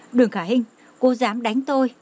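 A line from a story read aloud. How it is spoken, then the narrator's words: Angry trembling shout. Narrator (Vietnamese): Lâm Tử Linh tức giận, bị kích thích run rẩy kêu to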